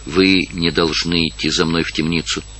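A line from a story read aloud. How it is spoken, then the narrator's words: Quiet. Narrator (Russian): сказала тихо Марион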